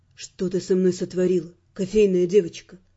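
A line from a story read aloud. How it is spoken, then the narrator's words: Quiet question. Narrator (Russian): негромко спросил Раймонд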